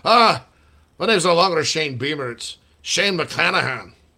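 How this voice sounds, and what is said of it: Put-on Irish accent. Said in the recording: “Irish accent”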